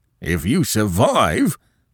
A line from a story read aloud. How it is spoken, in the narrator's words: both cried